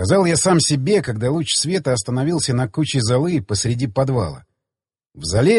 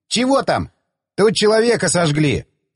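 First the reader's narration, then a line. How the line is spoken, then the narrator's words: Shouting. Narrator (Russian): крикнул я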